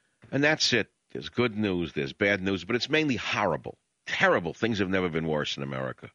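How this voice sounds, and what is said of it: Usual voice. Nothing is said of it.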